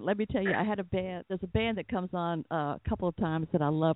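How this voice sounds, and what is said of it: Southern American accent. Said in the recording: “I'm from Atlanta ... my southern accent”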